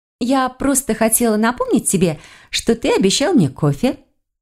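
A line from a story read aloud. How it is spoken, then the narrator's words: Cheerful. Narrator (Russian): весело сказала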